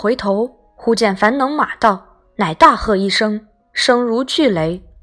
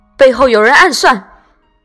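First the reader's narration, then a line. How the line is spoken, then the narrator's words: Loud cry. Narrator (Chinese): 策阵上军士大叫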